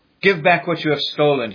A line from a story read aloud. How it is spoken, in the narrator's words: he pleaded